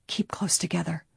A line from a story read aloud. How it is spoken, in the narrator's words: Nancy warned in an undertone